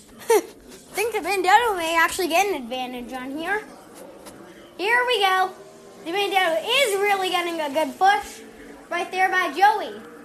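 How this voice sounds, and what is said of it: Yelling excited commentary. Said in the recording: “Stop yelling. ... it's just my dad trying to tell me to stop yelling”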